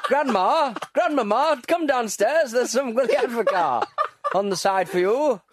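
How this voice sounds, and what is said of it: Impression of a Sunderland accent. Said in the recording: “great impression of people from Sunderland”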